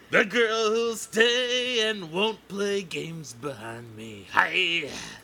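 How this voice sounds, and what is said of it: Gruff sung impression of a singer. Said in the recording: “Your one impression sounds like Neil Diamond ... It is Neil Diamond ... But Neil Diamond's not that gruff, dude ... like Bruce Springsteen doing an imitation of Neil Diamond ... This was not a good Neil Diamond”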